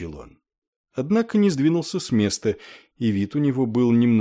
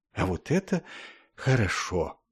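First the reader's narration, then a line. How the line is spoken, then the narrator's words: Relieved sigh. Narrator (Russian): капеллан облегченно вздохнул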